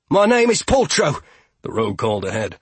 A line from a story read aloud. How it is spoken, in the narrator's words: her voice crisp and confident in the night